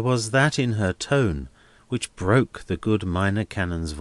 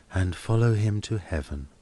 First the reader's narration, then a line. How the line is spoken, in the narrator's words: murmured Helena